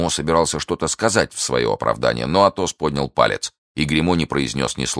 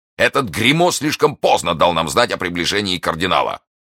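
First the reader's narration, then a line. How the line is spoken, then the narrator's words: Angry shout. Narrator (Russian): Портос, которому ужасно хотелось на ком-нибудь сорвать гнев, крикнул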